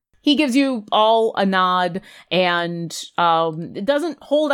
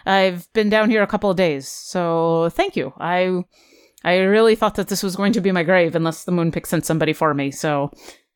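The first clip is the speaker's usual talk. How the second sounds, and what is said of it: Thick accented character voice. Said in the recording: “Your accent's a little thick.”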